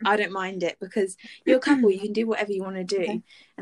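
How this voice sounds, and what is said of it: Out of breath, panting speech. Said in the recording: “Oh my gosh, I'm out of breath.”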